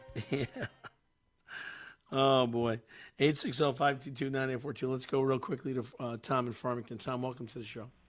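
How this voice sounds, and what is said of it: Hoarse, strained voice. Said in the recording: “My voice is a little off. I've got laryngitis”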